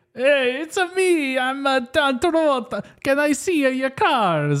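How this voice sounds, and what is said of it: Terrible Italian accent, Travolta impression. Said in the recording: “Travolta's doing this fucking terrible Italian accent.”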